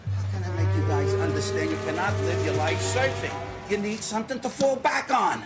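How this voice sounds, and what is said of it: New York accent. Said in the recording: “Why's the dad got a New York accent?”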